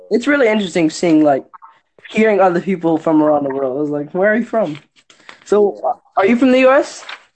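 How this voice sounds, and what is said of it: Australian accent. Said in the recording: “Probably Australia. ... Yeah, the Australian accent.”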